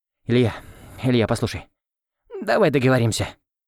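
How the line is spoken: Timid mumbling. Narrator (Russian): забормотал Оскар, втянув голову в плечи

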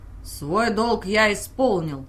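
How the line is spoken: Growled. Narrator (Russian): рыкнул он

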